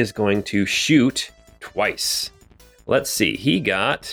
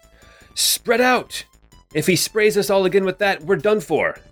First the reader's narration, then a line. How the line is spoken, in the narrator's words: he's going to shout out